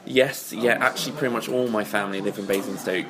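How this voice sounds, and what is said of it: Southern English accent. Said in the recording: “I don't know whether the accent gives away too much, but I'm actually from down south.”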